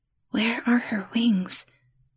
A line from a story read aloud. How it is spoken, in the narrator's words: the girl whispered